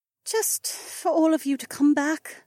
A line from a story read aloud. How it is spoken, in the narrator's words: the blonde sighed